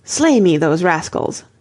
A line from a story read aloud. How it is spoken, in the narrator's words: was very angry, for he thought they fled through cowardice, so he cried